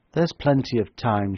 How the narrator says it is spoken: she remarked calmly

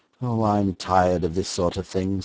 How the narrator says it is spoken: said Doyle wearily

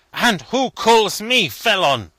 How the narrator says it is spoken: said Obenreizer fiercely

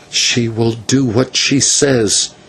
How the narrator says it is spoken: said Nahua

